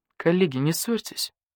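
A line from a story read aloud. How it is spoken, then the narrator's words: Tired older badger. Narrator (Russian): устало сказал барсук-старший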